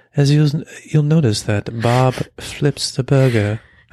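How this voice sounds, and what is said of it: Mock NPR-style radio host voice. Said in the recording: “I've been practicing my podcast voice ... very much like that NPR voice ... you sound exactly like them”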